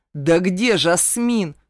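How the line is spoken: Roaring, yelling. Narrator (Russian): Взревел я и заорал

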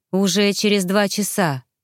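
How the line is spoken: Sighing. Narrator (Russian): Летта вздохнула

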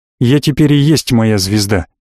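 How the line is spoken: Suddenly angry. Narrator (Russian): неожиданно зло ответил маг

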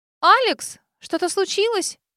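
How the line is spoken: Frightened shout. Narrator (Russian): испуганно выкрикнула мне вслед Санди

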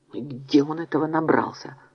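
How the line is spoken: Whisper. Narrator (Russian): прошептал он

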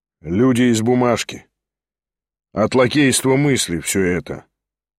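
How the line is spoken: Calm remark. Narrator (Russian): спокойно заметил Шатов

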